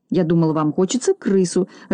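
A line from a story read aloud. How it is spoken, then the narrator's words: Confused mutter. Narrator (Russian): растерянно пробормотал Бигль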